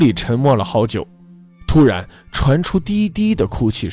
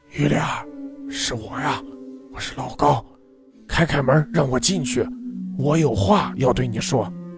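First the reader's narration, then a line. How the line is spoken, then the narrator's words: Low, hushed voice. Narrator (Chinese): 高方店 低声说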